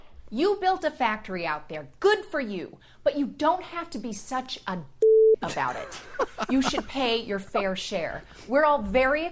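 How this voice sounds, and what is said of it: Elizabeth Warren impression, cadence right. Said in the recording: “a terrific impersonation of Senate candidate Elizabeth Warren ... while her voice isn't perfect, she has the cadence and the themes down perfectly”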